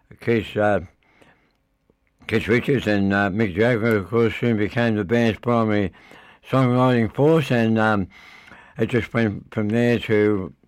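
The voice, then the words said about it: Unwell, strained voice. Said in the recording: “Excuse my voice, I'm not very well tonight.”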